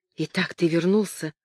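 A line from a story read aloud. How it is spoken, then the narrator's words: Quiet. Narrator (Russian): тихо сказала она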